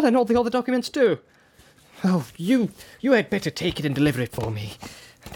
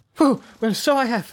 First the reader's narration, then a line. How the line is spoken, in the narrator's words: cried Bilbo